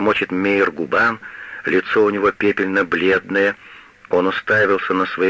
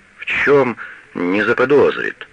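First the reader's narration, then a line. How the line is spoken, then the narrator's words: Stammering question. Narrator (Russian): спрашивает Мейер, заикаясь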